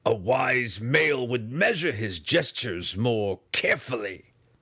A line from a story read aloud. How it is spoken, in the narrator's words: Breeza snarled aloud